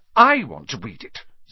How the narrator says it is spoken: said Harry furiously

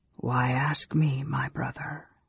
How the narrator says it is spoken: Raistlin replied softly

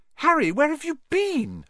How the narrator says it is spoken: Hermione squeaked

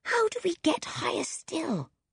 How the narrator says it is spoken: whispered George

